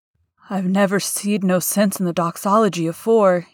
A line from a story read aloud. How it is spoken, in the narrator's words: said hoarsely